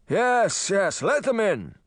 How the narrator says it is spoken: he shouted

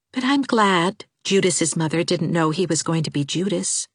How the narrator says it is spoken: said Anne softly

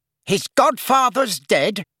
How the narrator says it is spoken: said Uncle Vernon loudly

